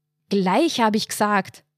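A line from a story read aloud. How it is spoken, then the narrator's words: Bellowing. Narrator (German): brüllte er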